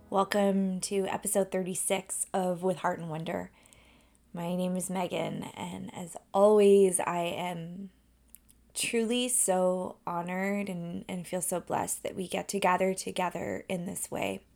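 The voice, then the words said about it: Hoarse, froggy voice from a cold. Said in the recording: “I have a little bit of a frog in my throat... been a little bit under the weather... a really lingering cold”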